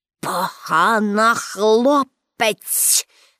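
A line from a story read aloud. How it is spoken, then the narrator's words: Hissing through teeth. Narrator (Ukrainian): засичав крізь зуби директор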